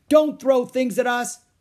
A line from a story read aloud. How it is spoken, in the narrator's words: shouted Annie